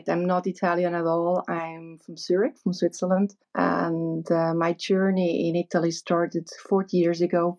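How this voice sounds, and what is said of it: Foreign accent, not quite Italian. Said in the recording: “your accent. It's not exactly Italian.”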